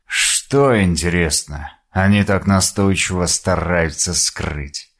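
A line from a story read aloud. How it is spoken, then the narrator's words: Muttering to himself. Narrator (Russian): Пробормотал он себе под нос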